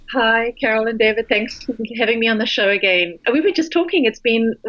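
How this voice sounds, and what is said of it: British English accent. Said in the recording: “As you can hear from her accent, ... is calling in from London, England.”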